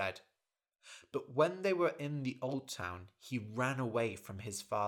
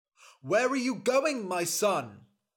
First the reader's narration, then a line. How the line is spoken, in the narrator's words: his father shouted